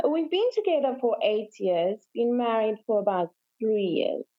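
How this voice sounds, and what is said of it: South African accent. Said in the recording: “obviously you have an accent ... I'm South African”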